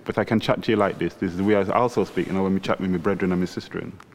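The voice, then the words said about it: Jamaican-sounding British speech. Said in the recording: “That sounds very Jamaican. ... talk all Jamaican.”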